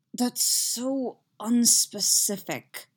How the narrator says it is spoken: Anakin mutters

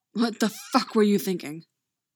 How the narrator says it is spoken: Vic snarls

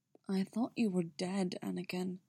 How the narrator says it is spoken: he said, his voice soft

